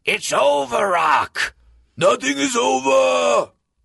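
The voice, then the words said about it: Imitates Rocky film character voices. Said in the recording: “Rocky impersonations”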